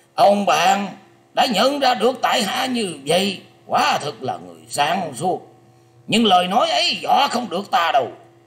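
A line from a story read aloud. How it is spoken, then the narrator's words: Terrified old man, harsh shout. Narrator (Vietnamese): Lão già che mặt bất giác rùng mình hai lượt, kinh hoàng gằn giọng quát rằng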